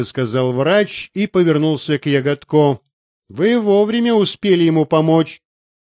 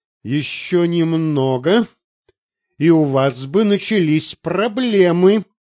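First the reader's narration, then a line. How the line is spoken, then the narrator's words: Through gritted teeth. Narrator (Russian): Сквозь зубы процедил адвокат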